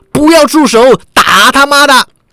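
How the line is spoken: Roaring shout from crowd. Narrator (Chinese): 人群中也有人运起狮吼功喝道

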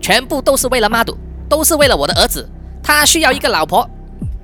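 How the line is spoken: Loud shout. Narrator (Chinese): Chana 阿姨呢，就大声的喊说

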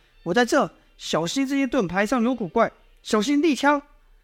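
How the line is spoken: Calling out repeatedly. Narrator (Chinese): 叶萧还是不断出声喊道

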